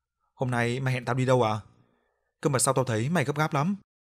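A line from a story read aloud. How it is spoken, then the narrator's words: Soft, smiling. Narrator (Vietnamese): Tùng mỉm cười, Tùng khẽ nói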